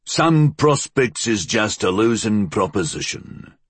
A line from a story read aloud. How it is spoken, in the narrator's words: Flood grunted